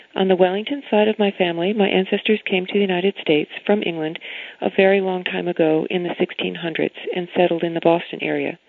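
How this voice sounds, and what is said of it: American accent. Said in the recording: “You can hear from how I am speaking that I have an American accent, not an English one.”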